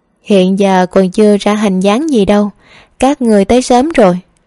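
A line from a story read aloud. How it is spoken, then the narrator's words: Happy, smiling. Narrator (Vietnamese): Lâm Tư Dao hạnh phúc mỉm cười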